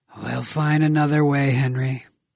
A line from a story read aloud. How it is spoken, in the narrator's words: Grigor sighed